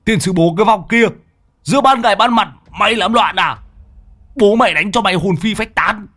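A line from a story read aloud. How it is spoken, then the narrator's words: Shouted. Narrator (Vietnamese): nhà tứ quát lên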